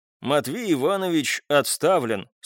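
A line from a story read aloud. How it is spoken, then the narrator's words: Dry. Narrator (Russian): сухо произнес Николай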